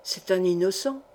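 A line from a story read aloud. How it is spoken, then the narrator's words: Whispered into ear. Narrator (French): murmura Feydeau à l'oreille de son gendre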